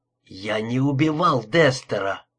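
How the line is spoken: Hoarse strained words. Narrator (Russian): хрипло выдавил я

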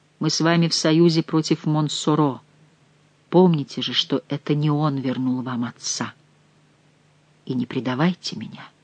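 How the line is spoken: Quiet, passionate, breathy. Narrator (Russian): опьяняя ее страстным дыханием, он тихо добавил

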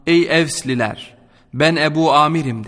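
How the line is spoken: Plain. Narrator (Turkish): dedi

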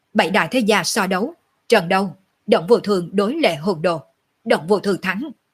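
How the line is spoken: Frightened hasty loud announcement. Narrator (Vietnamese): Người điều khiển trận đấu hoảng sợ, vội vàng lớn tiếng nói

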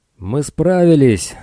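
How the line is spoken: Shout echoing inside helmet. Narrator (Russian): закричал он, услышав лишь собственный голос, отразившийся от поверхности шлема

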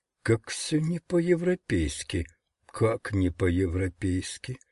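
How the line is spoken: Whisper. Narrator (Russian): профессор прошептал

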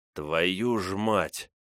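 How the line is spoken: Hiss. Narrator (Russian): прошипел Степан

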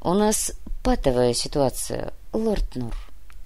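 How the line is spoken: Sighing. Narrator (Russian): вздохнул комиссар

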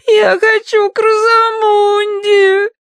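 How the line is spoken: Sobbing. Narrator (Russian): рыдала она

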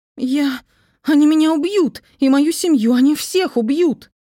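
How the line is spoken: Sudden shout. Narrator (Russian): Внезапно закричала она

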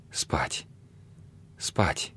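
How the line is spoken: Soft sleepy chirping. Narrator (Russian): тихо щебетала она, как засыпающая птичка

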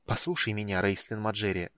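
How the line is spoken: Hissed close to ear. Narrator (Russian): зашипела Иоланта, склонившись к его уху

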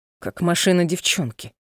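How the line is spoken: Snorted. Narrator (Russian): фыркнул он

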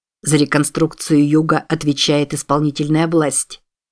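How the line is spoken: Sharp tone. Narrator (Russian): снова заговорил Джордж довольно резким тоном

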